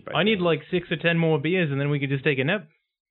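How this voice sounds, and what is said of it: Strong put-on New Zealand accent. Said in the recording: “I've really fallen into like New Zealand accent where it's like really strong ... Literally doing Taiki Waititi.”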